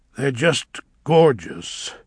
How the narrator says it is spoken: said Elphaba thickly

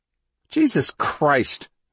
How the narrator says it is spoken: Simpson said with a snort

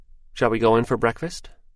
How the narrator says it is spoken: she said tranquilly

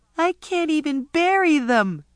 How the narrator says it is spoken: Ramona cried and carried on so

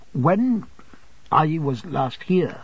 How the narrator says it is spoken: I faltered

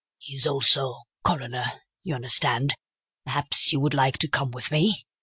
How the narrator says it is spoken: in a lower voice

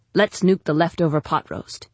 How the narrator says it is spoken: he said

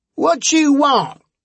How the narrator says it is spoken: a voice shouted from inside

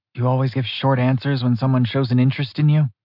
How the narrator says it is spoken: She mumbled

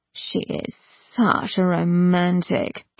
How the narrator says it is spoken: drawled Ianthe

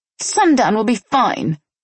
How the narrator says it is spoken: she said with a sneer

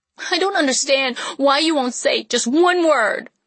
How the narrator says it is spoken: I cried, clenching my teeth

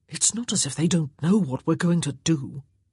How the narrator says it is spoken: he whispered in her ear

